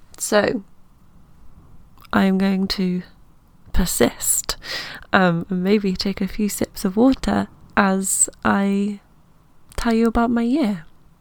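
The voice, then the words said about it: Scratchy, nasal voice from a cold. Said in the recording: “my voice is a little scratchy and or nasal. I've got a little bit of a cold”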